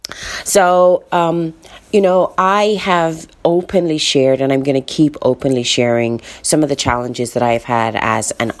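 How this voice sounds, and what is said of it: Slightly weird, just-woken-up voice. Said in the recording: “my voice sounds a little bit weird, it's because, well, I may have woken up not too long ago”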